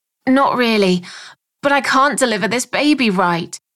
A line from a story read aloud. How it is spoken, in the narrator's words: spluttered